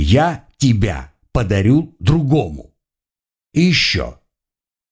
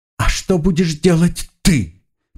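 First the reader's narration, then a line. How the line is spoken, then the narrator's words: Asked through sobs. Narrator (Russian): Почти рыдая, задала она вопрос, прорываясь сквозь всхлипы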